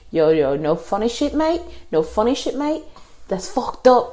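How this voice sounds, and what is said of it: Poor put-on New Zealand accent. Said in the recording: “I don't know how to do a New Zealand accent.”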